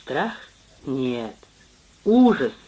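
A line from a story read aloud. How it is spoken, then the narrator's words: Muttered. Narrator (Russian): Он пробормотал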